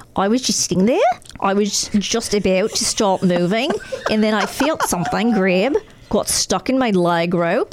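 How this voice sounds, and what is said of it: Put-on Australian accent. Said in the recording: “Do you want me to read this in an Australian accent?”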